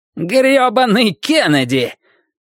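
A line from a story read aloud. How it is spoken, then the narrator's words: Nearly shouting. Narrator (Russian): Мэрит чуть не кричал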